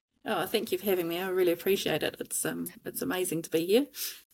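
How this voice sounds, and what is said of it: New Zealand accent. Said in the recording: “out of New Zealand ... She's going to fix it with her accent.”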